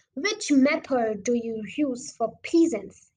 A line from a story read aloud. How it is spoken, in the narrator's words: he asked